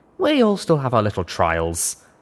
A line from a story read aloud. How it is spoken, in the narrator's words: Rivets said with a sigh